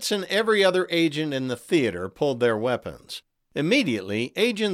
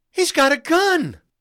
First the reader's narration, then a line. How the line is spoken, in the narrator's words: Fritz heard a woman shout